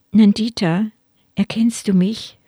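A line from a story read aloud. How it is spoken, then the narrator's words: Gentle question. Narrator (German): fragte sanft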